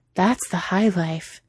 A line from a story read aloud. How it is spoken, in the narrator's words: Cheeto had breathed out